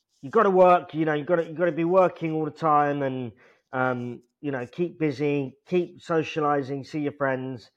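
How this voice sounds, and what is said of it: Imitates another person's voice. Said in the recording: “That was an impression of my dad”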